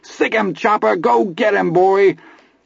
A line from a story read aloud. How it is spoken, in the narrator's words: Vern screamed, and Milo yelled